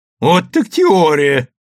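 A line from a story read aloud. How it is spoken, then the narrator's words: Loud laughter. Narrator (Russian): громко расхохотался Иво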